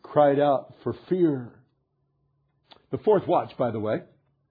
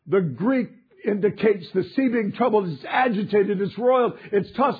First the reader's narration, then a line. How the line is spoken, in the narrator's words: they cried out